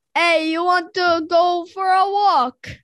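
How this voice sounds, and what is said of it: Put-on Italian accent, fairly good. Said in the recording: “I can do an Italian accent. ... Give me an Italian. ... That's not bad.”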